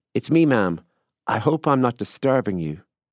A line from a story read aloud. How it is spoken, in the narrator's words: a voice that was vaguely familiar called out, and confidently from below